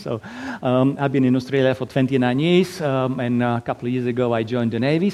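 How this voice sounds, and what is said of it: Slovak-accented English. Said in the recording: “originally from tiny little country in Eastern Europe, Slovakia. So that's why my lovely accent.”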